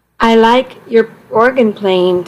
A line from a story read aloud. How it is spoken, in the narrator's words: Tom said